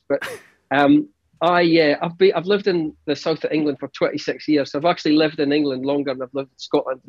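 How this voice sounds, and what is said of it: Thick Scottish accent. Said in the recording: “your accent's fairly thick ... I can go way thicker than this as well. If I go into pure Doric, if I go into pure Northeast”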